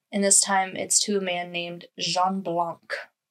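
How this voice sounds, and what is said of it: Poor French accent on a name. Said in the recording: “I have a terrible French accent.”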